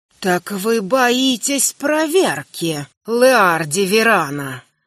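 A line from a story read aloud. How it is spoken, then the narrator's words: Hoarse fiery hiss. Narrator (Russian): Хриплое шипение огня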